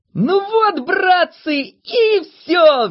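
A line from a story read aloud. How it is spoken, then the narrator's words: Cheerful shout. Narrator (Russian): весело закричал он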